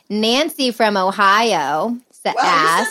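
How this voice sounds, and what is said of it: Put-on Ohio accent. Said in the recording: “You said that with an Ohio accent. ... I just totally went Ohio.”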